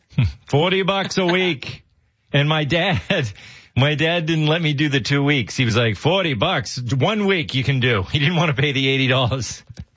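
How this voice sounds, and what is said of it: Speaks with a Massachusetts accent. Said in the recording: “you just got a Massachusetts accent there”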